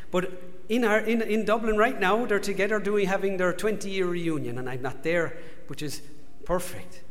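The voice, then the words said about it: Irish accent. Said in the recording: “If you haven't told from my accent, if you've worked it out, I'm from Ireland”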